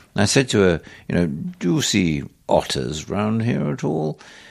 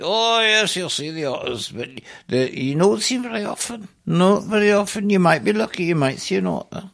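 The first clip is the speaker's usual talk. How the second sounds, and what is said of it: Bad put-on Scottish accent. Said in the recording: “very Scottish accent ... This is a very bad Scottish accent”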